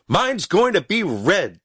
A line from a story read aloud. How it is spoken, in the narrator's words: shouted Stubby